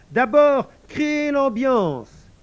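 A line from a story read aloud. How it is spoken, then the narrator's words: Shouted again. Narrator (French): cria de nouveau Emmanuel Rosidor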